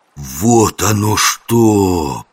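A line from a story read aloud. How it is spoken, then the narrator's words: Drawling. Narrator (Russian): протянул Жихарь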